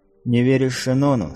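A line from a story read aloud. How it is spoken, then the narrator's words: Plain question. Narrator (Russian): спросила светлорожденная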